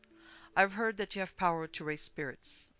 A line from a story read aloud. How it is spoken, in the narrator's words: Mycroft blurted confusedly